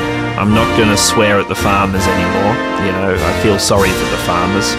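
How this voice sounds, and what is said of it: Usual voice. Nothing is said of it.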